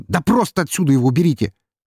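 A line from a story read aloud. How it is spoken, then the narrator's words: Barking. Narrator (Russian): рявкнул он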